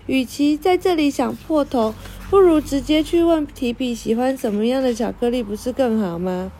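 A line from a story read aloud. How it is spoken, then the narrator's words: Laughing. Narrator (Chinese): 露露笑了起来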